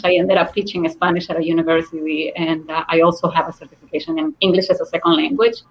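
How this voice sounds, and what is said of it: Speaks English with a foreign accent. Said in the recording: “I do teach English as a second language. Awesome. With my accent.”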